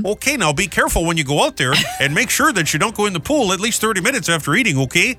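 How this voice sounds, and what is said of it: Put-on Wisconsin mom accent. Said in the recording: “I need a mom from Wisconsin ... why does your mom have that accent?”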